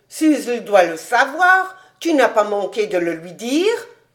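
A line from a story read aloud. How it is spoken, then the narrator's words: Exclaimed. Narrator (French): s'écria-t-il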